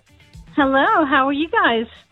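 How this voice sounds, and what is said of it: American New York accent. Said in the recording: “Oh, my God. Oh, is that an American accent? ... New York.”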